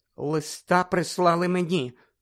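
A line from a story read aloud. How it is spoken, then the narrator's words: Trembling, forced out. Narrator (Ukrainian): тремтячим голосом витиснула з себе тітка Петунія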